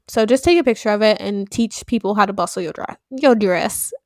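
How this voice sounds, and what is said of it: Sudden put-on accent. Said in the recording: “I don't know where that accent came from”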